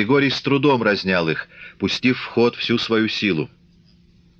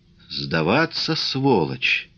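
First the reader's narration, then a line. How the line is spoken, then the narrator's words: Strained, choked muttering. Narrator (Russian): Придушенно бормотал он, силясь опрокинуть Копарина на землю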